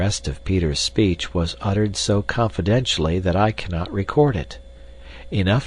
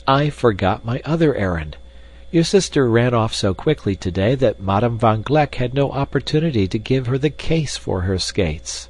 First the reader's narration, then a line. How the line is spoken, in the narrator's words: exclaimed Peter